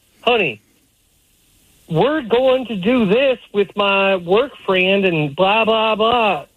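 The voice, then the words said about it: Imitated southern American accent. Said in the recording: “she has a southern accent.”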